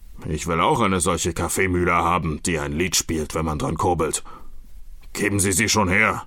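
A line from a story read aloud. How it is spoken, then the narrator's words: Robber's growl. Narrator (German): knurrte der Räuber Hotzenplotz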